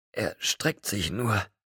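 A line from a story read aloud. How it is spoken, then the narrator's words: Panting. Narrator (German): keuchte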